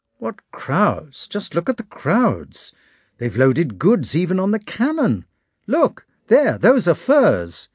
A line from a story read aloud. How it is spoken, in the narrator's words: they exclaimed